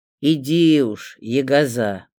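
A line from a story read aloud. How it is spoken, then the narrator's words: Grumbling, secretly touched. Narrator (Russian): проворчал, но видно было, что тронут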